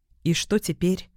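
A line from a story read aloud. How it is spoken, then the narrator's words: Quiet, breaking silence. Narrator (Russian): тихо спросила я, ломая тишину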